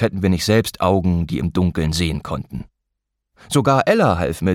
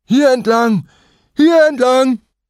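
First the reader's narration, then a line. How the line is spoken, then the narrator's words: Excited call. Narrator (German): Aufgeregt wuselte Jasper vor uns in Richtung Meer und rief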